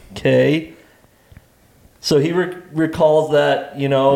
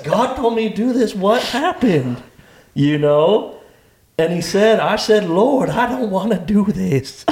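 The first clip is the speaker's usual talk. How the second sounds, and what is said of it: Put-on Southern accent. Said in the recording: “Your accent. ... I don't know how he became Southern and he's Italian.”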